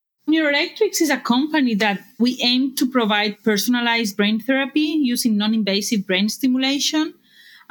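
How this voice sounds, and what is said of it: Barcelona Spanish accent. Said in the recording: “incorporated in 2011 in Barcelona, as you can tell by my accent”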